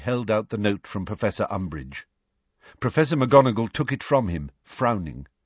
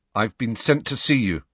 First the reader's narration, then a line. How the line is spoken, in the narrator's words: said Harry stiffly